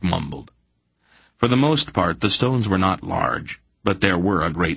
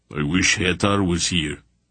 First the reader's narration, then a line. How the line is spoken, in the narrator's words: Barak grunted